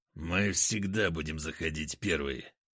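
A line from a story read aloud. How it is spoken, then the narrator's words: Through clenched teeth. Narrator (Russian): процедил сквозь зубы Потап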